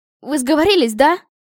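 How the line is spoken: Exclaiming. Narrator (Russian): воскликнула я

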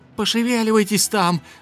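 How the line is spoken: Yelling from shadows. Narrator (Russian): завопила из теней серая дымка

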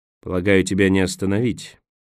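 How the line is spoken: Grumbling. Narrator (Russian): проворчал Николас

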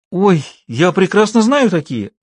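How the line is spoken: Exclaiming. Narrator (Russian): воскликнула Шула

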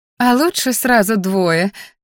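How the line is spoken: Laughing, overjoyed mother. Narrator (Russian): засмеялась моя счастливая до невозможности матушка

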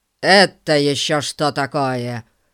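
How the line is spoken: Loud question. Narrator (Russian): спросил мистер Гун так громко

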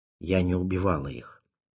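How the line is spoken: Quiet. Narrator (Russian): тихо сказала она

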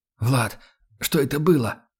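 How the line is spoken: Strained wheeze. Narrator (Russian): Сдавленно прохрипел я

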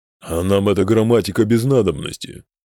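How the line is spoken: Grumbling. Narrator (Russian): проворчал Брастамгруд

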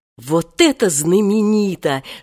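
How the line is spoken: Admiring exclamation. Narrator (Russian): снова восхитился Женька

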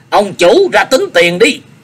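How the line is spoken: Wild shouting. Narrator (Vietnamese): Minh Đấu hét hoang hoang

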